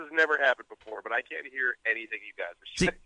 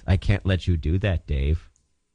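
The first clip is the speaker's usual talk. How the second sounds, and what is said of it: Robotic HAL 9000 impression. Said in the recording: “Your reception's makes it sound like we're talking to Hal from 2001 ... robot voice ... what's something Hal says?”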